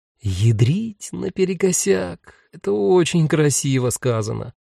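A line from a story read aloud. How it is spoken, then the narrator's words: Dreamy drawl. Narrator (Russian): мечтательно протянул белобрысый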